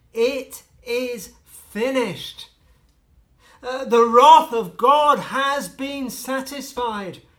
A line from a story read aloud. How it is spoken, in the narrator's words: the Lord Jesus Christ cried out